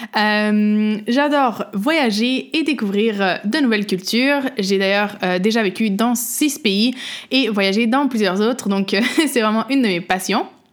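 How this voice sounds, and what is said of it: Québécois French accent. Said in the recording (French): “je suis québécoise, vous pouvez sûrement l'entendre dans mon accent”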